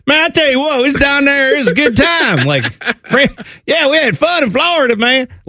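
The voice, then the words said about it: Put-on Southern hillbilly accent. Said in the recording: “picking up the dialect. Like, if I go down south ... My Florida accent sounded like John Gruden ... more hillbilly”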